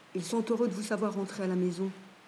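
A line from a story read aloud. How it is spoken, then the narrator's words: Murmur. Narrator (French): a murmuré Deepak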